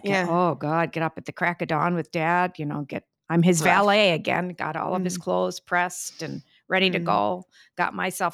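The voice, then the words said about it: Thick Midwestern American accent. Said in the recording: “What is happening with this accent? ... It's thick. ... are you from Chicago? I said, well, actually, a little bit further north, Milwaukee. ... It's thick.”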